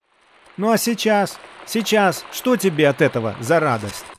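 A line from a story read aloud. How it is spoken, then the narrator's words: Shouting. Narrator (Russian): крикнул он Лесперу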